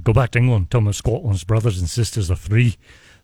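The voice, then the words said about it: Attempted Scottish accent. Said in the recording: “I was going to try and go Scottish ... That's a little better ... That's pretty good”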